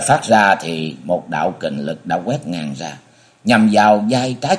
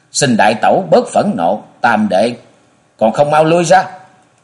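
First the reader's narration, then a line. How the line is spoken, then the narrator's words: Sudden loud shout. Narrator (Vietnamese): đột nhiên ở giữa cũng có tiếng quát lớn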